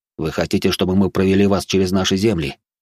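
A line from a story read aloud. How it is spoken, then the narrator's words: Added with a snort. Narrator (Russian): добавил он и хмыкнул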